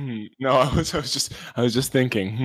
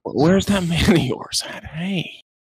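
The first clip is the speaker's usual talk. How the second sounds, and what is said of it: Quiet imitation of another person's voice. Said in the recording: “Do an Owen Wilson impression ... I get really quiet”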